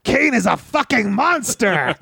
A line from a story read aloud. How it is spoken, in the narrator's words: Tarzan, you just screamed out